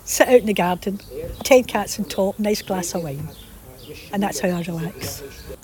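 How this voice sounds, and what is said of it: Lovely Scottish lilt. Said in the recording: “What a lovely accent she's got ... she's still got that really lovely Scottish lilt to her voice ... her best Glaswegian accent”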